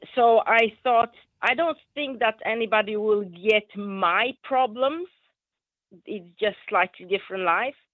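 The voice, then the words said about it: Polish accent in English. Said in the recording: “as you can hear from my accent, I'm not, you know, English is my second language. I'm Polish.”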